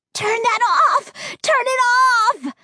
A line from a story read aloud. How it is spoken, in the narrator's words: screeched, his voice a shrill whisper, like wind through a broken window pane